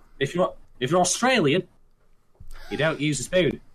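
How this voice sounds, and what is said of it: Bad put-on Australian accent. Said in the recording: “That's a really bad Australian accent”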